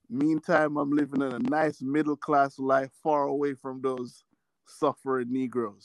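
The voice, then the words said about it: Hard-to-place foreign accent. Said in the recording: “I can't place your accent.”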